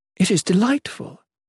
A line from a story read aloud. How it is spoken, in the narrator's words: exclaimed